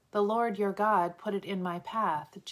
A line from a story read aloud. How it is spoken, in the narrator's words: Jacob said